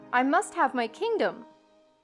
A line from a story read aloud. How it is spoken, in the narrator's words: he cried